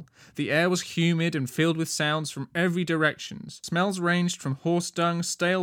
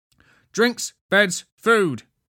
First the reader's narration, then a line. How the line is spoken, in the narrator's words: Wendy began asking loudly